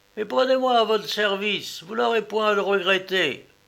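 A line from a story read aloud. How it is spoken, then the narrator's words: Shouted. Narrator (French): cria-t-il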